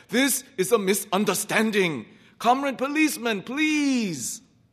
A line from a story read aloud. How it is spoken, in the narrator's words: the short peasant wailed